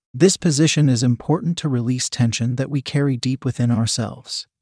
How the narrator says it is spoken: Jasmine said softly

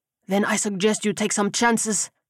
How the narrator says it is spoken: he hissed

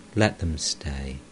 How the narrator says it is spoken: The master said tenderly

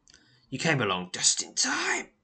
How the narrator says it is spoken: he croaks

